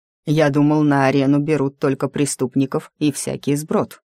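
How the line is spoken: Plain. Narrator (Russian): сказал Герах

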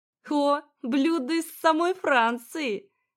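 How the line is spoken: Chuckling. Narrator (Russian): хохотнула

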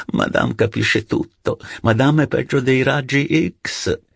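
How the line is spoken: Laughing reply. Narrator (Italian): Françoise replicava ridendo

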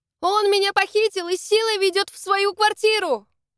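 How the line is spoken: Shout. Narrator (Russian): Это я крикнула охраннику

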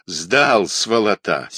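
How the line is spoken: Angry interruption. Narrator (Russian): сердито перебил полковник

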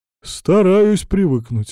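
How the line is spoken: Sighing. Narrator (Russian): вздохнул Разуваев

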